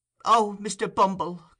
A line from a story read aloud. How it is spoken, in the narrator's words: cried the lady